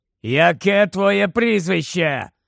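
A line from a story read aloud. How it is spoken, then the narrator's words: Growling. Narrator (Ukrainian): прогарчав Грейбек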